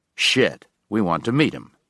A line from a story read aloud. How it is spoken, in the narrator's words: Binder said